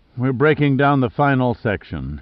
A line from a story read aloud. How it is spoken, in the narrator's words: he said wearily